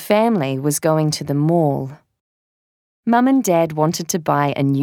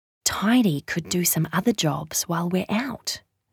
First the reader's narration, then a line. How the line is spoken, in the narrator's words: whispered